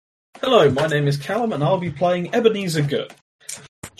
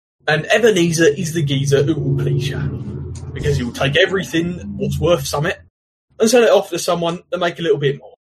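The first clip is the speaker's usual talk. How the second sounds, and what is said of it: Slight put-on Cockney accent. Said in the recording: “he'll talk with a slightly Cockney accent.”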